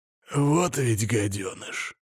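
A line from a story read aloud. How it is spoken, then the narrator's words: Slightly hoarse voice. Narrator (Russian): слегка хрипловатый голос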